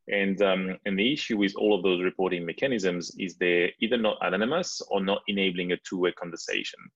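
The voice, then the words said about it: French accent in English. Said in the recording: “my lovely French accent ... I still had my French accent”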